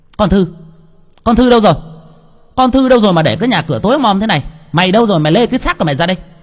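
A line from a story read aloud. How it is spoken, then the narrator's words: Angry yell. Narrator (Vietnamese): Ả quát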